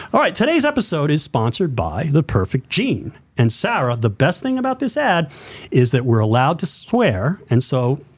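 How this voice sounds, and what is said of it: Announcer-style radio voice. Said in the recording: “I'm inspired by listening to baseball on the radio as a kid. I grew my radio voice.”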